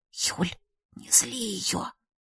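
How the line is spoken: Faint whisper from behind. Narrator (Russian): Чуть слышно прошептала сзади Ийка

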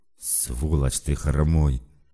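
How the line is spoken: Hissing. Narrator (Russian): прошипел бледный

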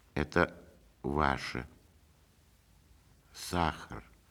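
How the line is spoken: Quiet, holding back tears. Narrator (Russian): тихо сказала она и отвернулась, чтобы скрыть слезы

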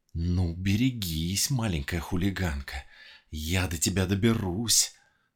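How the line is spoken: Hiss through teeth. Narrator (Russian): Сквозь зубы прошипела лиса

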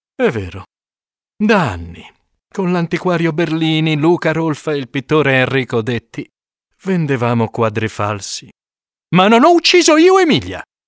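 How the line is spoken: Count sighing, then speaking. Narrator (Italian): Il conte sospira, poi dice

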